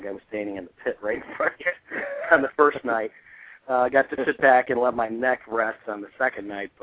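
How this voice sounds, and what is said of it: Slightly scratchy voice. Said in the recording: “My voice is probably still a little bit scratchy from sucking in all the fog”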